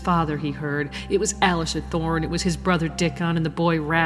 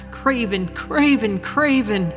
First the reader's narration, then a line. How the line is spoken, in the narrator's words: He giggled hysterically